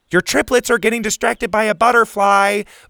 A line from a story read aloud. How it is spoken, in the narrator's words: Bo shouted down to her